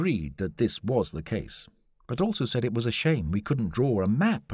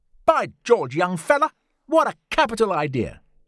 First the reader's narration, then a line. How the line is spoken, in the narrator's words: exclaimed Lord John